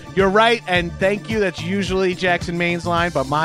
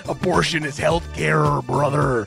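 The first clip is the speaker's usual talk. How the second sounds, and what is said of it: Bad Macho Man Randy Savage impression. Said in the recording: “Mr. Randall Savage, nice of you to stop by ... Macho Man is here now due to a bad impression”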